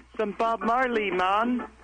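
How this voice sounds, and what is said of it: Put-on Jamaican accent. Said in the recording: “Jamaican now? Your accent sounds different.”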